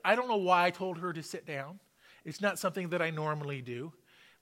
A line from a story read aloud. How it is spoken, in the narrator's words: she says